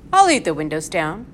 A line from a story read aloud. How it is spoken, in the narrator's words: said her father